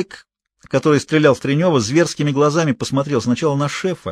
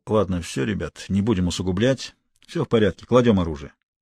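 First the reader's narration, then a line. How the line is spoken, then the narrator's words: Quiet speech. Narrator (Russian): тихо сказал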